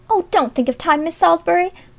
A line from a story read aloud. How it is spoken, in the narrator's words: begged Alexia, just as familiarly as in the old days